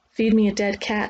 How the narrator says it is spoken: she said

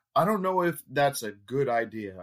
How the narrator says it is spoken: I stammered

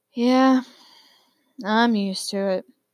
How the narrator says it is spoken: Hades sighed miserably

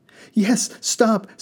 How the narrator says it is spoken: the passengers begged

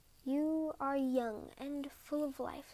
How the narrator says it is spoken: whispered

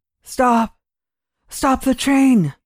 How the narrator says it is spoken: he gasped

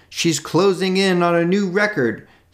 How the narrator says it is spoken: The MC shouted

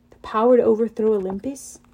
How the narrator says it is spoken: Talia muttered

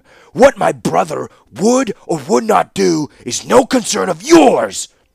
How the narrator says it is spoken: he thundered

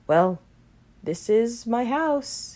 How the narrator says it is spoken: he said flatly

